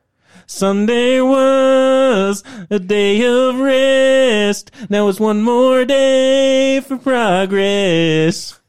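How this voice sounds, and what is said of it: Sung imitation of another person's voice. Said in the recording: “his incredible Rascal Flatts impersonation ... I don't think I did it as good as I can, but you know, I'm low energy today”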